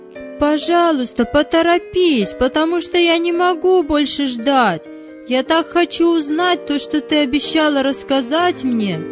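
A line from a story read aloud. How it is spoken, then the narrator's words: Shouted. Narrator (Russian): прокричал Давид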